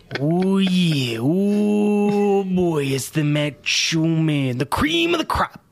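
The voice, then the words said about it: Macho Man Randy Savage impression. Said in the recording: “you just can't talk about Macho Man without getting a little bit of that voice in.”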